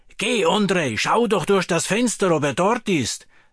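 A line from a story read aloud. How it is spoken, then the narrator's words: Calling out. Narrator (German): rief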